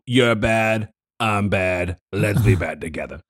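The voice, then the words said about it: Raspy smoker character voice. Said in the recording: “That was a great impression. ... Just a guy who smokes. ... Mr. Krabs.”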